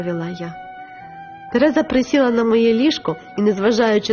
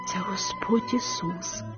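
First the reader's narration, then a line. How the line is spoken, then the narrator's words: Quiet whisper. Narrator (Ukrainian): тихо прошепотіла я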